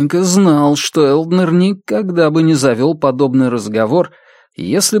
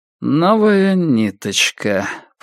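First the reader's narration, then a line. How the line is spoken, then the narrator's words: Indifferent repetition. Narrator (Russian): повторил Витенька безразличным тоном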